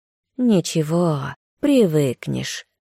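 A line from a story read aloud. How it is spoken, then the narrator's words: Purred. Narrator (Russian): Котофей промурлыкал из высокой синеватой травы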